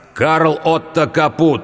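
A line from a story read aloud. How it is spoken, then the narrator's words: Loud. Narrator (Russian): громко произнес Тимур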